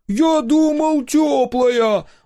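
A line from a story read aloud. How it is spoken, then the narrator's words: Yelling from cold shock. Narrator (Russian): завопил Дозер, едва ступив в воду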